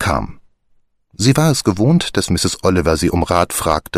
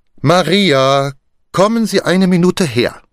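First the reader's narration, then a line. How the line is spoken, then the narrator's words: Calling, then louder. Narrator (German): rief sie, dann lauter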